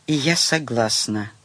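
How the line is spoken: Quiet answer. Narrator (Russian): тихо ответила Таня

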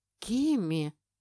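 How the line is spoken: Bewildered exhalation. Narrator (Russian): выдохнул Бастен растерянно

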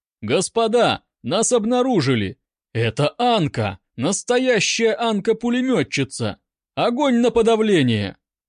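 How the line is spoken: Muffled shout. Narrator (Russian): поручик, уткнувшись носом в кочку, крикнул

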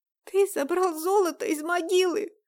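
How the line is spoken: Hoarse rasp. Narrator (Russian): прохрипела Дайнека

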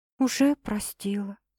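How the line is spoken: Quiet reply. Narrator (Russian): тихо отвечаю я

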